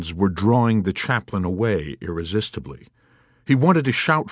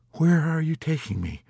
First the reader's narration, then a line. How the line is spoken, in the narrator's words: he asked in a soft voice with timidity and guilt